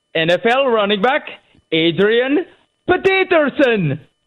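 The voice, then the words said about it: Put-on accent, almost convincing. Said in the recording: “The accent almost worked.”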